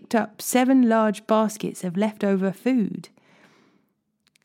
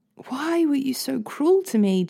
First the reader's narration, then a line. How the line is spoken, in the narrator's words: Jacob moaned